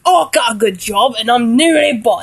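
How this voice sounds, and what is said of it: English accent drifting into Australian. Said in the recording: “It just sounds like Australian. Goes from an English accent all the way to Australian.”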